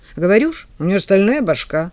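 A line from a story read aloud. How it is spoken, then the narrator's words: Snorted. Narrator (Russian): фыркнул Вовка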